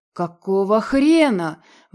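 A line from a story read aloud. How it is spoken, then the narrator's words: Wolf roaring. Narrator (Russian): взревел волк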